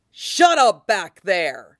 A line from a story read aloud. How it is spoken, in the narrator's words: Nightstick snarls